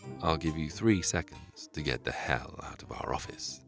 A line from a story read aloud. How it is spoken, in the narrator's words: said Albert calmly